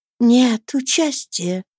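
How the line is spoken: Soft. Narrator (Russian): мягко отвечала Стелла

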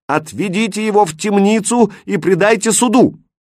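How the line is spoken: Frantic delirious shout. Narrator (Russian): Почти в беспамятстве тот прокричал

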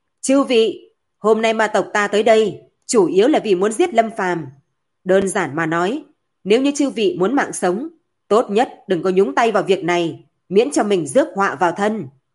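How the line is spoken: Loud voice. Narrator (Vietnamese): Hạ Ngọc Long lớn tiếng nói

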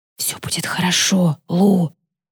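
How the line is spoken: Whispered. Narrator (Russian): прошептал мне папа

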